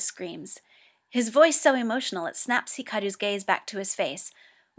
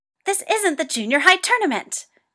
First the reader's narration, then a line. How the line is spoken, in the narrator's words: Toya shrieks